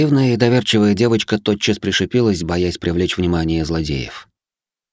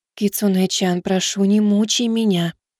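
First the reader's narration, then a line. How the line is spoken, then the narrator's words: Whispered answer. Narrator (Russian): также шепотом ответила Хикари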